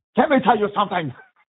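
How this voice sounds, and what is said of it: Impression of a comedic character voice. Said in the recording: “that's a good impersonation of Fire Marshal Bill”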